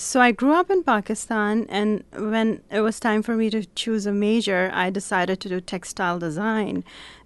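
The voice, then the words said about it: Slight foreign accent. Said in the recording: “you have a slight accent”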